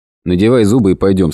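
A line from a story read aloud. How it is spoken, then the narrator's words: Plain. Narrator (Russian): сказал Редрик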